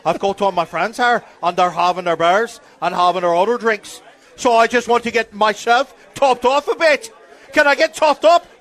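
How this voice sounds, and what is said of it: Put-on Irish accent. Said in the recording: “doing an Irish. I'm drunk ... I'm just doing an Irish accent.”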